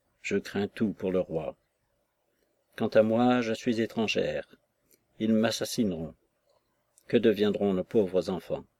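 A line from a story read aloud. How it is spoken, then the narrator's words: Murmured to herself. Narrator (French): je l'entendis murmurer, comme à elle-même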